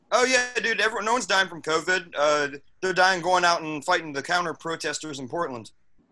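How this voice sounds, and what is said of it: Southern American accent. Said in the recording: “That Southern accent ... like that accent”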